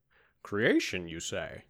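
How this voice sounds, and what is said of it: Sean Connery impression. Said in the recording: “I'm being Sean Connery. ... it's a good impression.”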